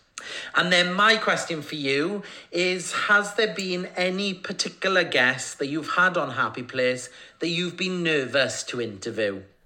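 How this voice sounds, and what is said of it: Welsh accent. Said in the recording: “I love your accent more than anything. My nan, Ruby Meredith, was from South Wales. So I've got Welsh in my blood.”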